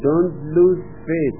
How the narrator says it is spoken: said the rabbi

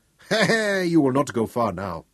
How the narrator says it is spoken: he chuckled

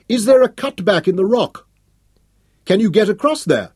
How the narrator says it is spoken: she shouted across

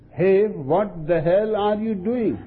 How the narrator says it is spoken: The shopkeeper came running over, shouting

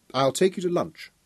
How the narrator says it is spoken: she said

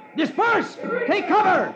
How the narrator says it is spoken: The sheriff shouts in panic

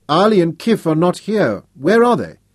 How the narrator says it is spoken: He raised his voice and called in Arabic

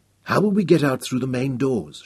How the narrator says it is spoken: she asked

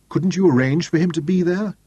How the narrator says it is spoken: Deborah pleaded

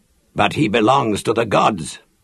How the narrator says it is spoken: Lannan challenged harshly

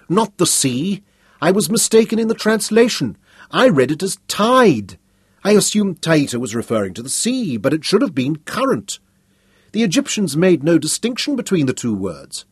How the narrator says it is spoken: she cried

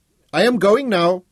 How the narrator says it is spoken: Chetty Singh shouted

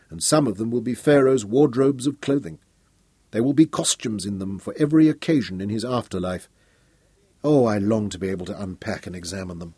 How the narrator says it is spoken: Royan murmured

